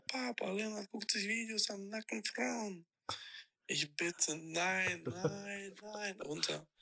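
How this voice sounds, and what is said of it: Heavy Italian-sounding accent. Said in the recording (German): “ist dein Bruder auf einmal irgendwie äh, Italiener geworden? ... hatte in der Geschichte einen heftigen Akzent ... man hört richtig, dass er schon im Bett liegt”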